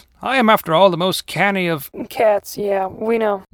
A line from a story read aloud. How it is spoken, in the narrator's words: Steve said with a groan